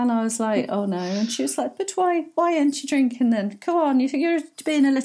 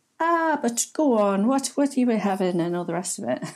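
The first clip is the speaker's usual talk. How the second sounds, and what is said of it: Put-on Irish accent. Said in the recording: “I'm gonna get strung up for that accent.”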